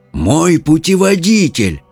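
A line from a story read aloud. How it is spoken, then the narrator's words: Exclaiming. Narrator (Russian): воскликнул Артур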